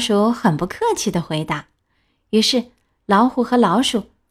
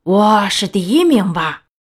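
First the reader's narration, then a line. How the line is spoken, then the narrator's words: Confident roar. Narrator (Chinese): 老虎 很自信的吼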